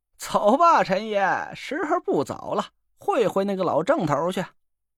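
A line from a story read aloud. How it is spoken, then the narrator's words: Hearty laughter. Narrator (Chinese): 蒋亮大笑起来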